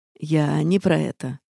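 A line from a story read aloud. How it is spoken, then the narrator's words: Man's snort. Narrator (Russian): хмыкнул мужчина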